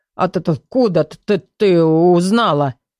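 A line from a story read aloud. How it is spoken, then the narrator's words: Grumbling mutter. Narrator (Russian): буркнула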